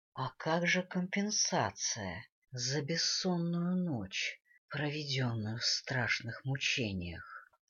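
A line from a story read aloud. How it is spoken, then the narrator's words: Purring. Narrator (Russian): Промурлыкал Шрайк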